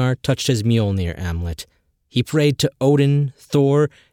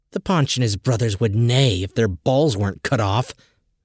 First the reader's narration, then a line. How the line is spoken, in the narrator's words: muttered Adi